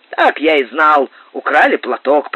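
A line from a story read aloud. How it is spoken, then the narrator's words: Grumbling. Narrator (Russian): проворчал капитан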